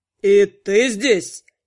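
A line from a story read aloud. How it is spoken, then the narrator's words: Growled. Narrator (Russian): прорычал Анхайлик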